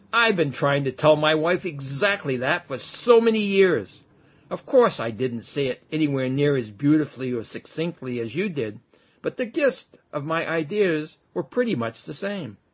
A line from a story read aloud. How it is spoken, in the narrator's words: He was eager to say something, and when he was sure his teacher had finished, he blurted out